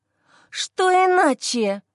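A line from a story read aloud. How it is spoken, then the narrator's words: Sister rasping in face. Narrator (Russian): хрипит ему в лицо сестра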